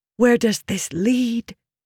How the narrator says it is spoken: She hissed at him

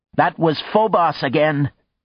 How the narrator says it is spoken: her little voice cried

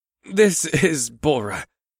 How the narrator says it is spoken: I chuckled to relieve the tension from Ebsith's assumption

